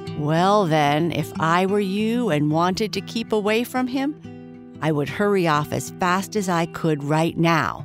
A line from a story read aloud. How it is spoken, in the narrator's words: chirped the bird suddenly